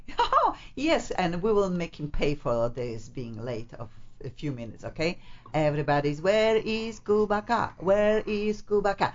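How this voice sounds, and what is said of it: Speaks with a foreign accent. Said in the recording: “You have an accent. ... I have an accent”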